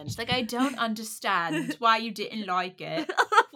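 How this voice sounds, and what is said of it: Bad put-on non-American accent. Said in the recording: “That's my bad accent... she's not American”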